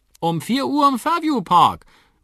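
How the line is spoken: Calling after someone. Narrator (German): ruft Onkel Danny hinter ihm her

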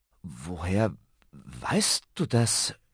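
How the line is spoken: Stammering. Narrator (German): stammelte Ben

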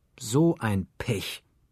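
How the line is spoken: Plain. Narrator (German): sagte Franz

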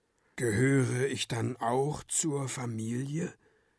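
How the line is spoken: Quiet hopeful question. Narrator (German): fragt er leise, aber mit viel Hoffnung in der Stimme

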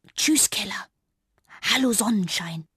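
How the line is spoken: Anxious but determined whisper. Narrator (German): wurde jetzt doch bange, aber dann flüsterte sie entschlossen

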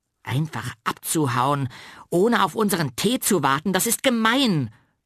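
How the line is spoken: Loud scolding. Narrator (German): schimpft laut

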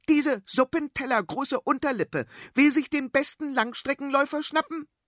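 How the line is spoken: Shouting. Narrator (German): schrie sie

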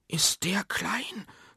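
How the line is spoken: Quiet speech. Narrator (German): sagt Bob leise

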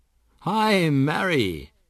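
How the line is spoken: Calling out. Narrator (German): ruft Onkel Danny

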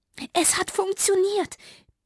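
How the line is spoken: Squeaky mouse voice. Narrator (German): piepste Fitti

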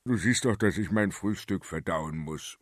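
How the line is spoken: Grumbled. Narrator (German): brummte er

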